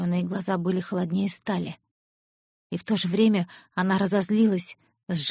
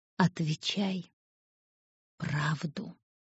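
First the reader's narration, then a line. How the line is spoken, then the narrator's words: Quiet. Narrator (Russian): тихо сказал он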